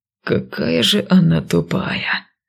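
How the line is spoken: Whisper. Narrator (Russian): шепот со стороны гвардейцев

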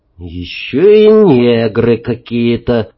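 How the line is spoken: Gloomy summing up. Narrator (Russian): уныло подвел итог Колька Самодуров

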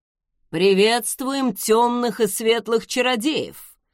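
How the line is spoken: Deep booming voice. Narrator (Russian): басовито прогудел отец

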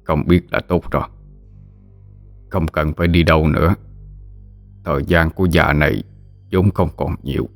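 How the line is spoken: Old man's weary soft laugh. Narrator (Vietnamese): Ông lão cất tiếng cười đầy mệt nhọc, khe khẽ đáp lại

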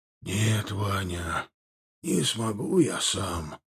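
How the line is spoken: Quiet whisper. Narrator (Russian): долетел до его ушей тихий шепот

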